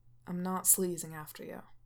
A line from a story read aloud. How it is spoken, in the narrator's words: he says flatly